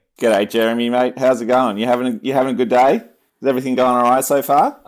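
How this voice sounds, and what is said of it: Put-on Australian accent. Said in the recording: “I love the Australian accent. Now you don't actually talk like that”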